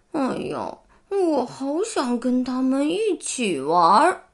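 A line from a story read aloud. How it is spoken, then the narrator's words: Envious murmur. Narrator (Chinese): 壮壮用羡慕的口气喃喃自语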